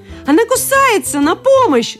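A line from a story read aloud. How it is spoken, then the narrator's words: Pained yelling man. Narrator (Russian): заорал один из мужчин, которого за палец и не в шутку укусила одна из Барби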